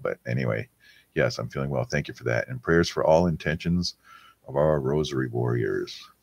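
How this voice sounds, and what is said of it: Voice deeper than normal, unwell. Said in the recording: “I may not sound normal. My voice is a little bit deeper right now.”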